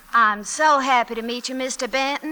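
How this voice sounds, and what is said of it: Slow Southern drawl. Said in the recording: “a nice, slow, southern drawl”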